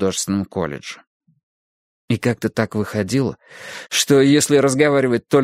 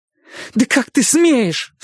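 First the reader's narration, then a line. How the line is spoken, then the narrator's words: Outraged cry. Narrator (Russian): вскрикнула она, как будто Гарриет надругалась над памятью Либби и сказала что-то гадкое и непростительное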